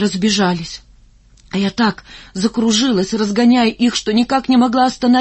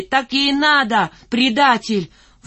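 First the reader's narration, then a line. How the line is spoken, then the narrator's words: Shouting. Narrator (Russian): другие кричали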